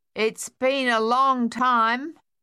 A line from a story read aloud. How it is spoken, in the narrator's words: Sonia said finally, loudly